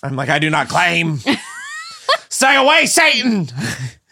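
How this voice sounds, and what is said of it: Put-on accent. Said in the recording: “That was a really good accent.”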